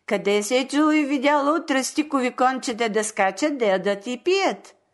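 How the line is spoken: Laughing joking question. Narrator (Bulgarian): засмял се и се пошегувал с децата, запитал ги

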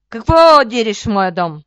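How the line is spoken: Roar. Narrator (Bulgarian): ревнал черноликият

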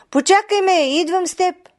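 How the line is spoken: Girl calling out. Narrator (Bulgarian): Девойката извикала на бухала

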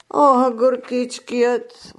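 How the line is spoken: Old woman sighing. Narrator (Bulgarian): въздъхна бабичката

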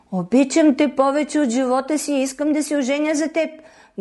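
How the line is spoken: Exclaiming. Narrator (Bulgarian): възкликнал принцът

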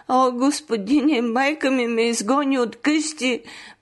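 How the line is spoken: Crying. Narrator (Bulgarian): проплакала тя

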